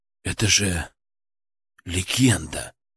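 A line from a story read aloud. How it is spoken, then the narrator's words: Breathless, admiring. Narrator (Russian): выдохнул я, восхищенно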